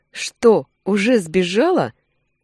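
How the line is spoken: Smirking. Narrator (Russian): Усмехнулся было

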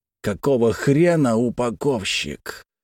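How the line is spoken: Faint whisper. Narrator (Russian): Его еле слышный шепот

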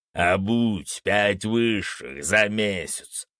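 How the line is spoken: Growl. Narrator (Russian): прорычал Фенрис

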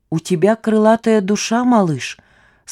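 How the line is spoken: Plain. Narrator (Russian): сказал он

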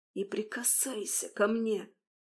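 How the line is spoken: Frightened childlike whisper. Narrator (Russian): прошептала я, как испуганный ребенок

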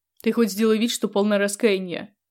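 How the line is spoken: Grumbling mutter. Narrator (Russian): пробурчала Лёва

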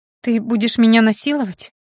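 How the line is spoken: Strained, panicked female breath. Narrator (Russian): С надрывом и на грани паники выдохнула она

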